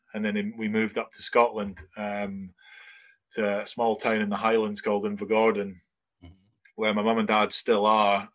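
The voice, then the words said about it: Broad Scottish accent. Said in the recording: “You sound really, really Scottish. I think you sound broad Scottish.”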